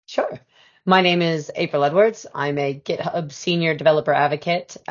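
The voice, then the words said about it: Raspy, hoarse voice. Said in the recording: “lost my voice over the last few weeks, so it's still like really raspy”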